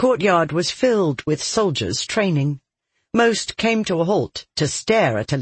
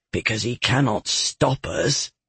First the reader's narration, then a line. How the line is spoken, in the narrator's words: Devkin murmured